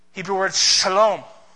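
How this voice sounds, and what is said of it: Word spoken in a Hebrew accent. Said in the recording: “Said it with a Hebrew accent there.”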